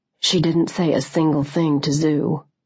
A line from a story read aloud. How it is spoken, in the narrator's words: he said quietly